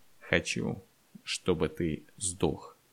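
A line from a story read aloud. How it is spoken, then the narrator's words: Slow, deliberate. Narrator (Russian): Андрей медленно сказал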